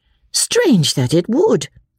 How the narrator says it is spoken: cried Marianne

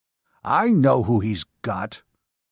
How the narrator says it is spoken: Hare growled in irritation

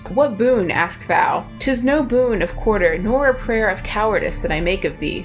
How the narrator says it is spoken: said Loch

